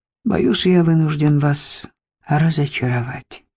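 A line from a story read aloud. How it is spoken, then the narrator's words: Plain. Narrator (Russian): наконец ответил он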